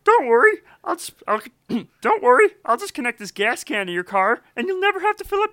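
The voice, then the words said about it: High-pitched goofy cartoon character voice. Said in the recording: “this voice I call Wally. He's kind of a goofball, high-pitched, always gets himself into trouble”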